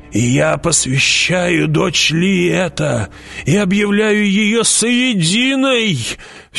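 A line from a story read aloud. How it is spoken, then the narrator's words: Old woman's hoarse, sharp whisper. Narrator (Russian): Все таким же хриплым и резким шепотом продолжила старуха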